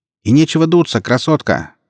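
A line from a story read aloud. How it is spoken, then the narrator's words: Shouted after someone. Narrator (Russian): крикнул в спину Экс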